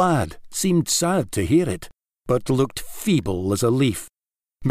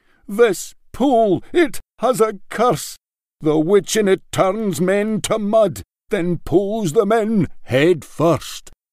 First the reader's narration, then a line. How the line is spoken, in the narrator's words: exclaiming